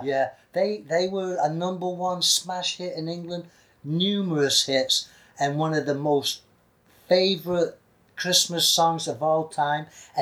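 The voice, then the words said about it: Manchester English accent. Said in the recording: “Listen to my accent. In Manchester, we say mud”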